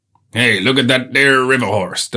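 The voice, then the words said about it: Speaks with a marked accent. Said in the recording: “Don't know why they've got that accent.”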